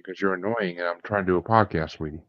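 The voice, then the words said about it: Whispering. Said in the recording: “Why are you whispering? Why are you whispering, Dad?”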